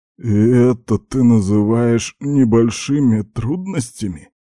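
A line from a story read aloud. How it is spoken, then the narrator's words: Hoarse, strained. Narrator (Russian): хрипло выдавил из себя генерал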